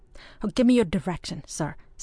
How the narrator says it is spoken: said Ardroy hastily

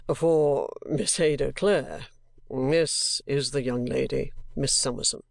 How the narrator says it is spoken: say in an equally low voice and with a smile

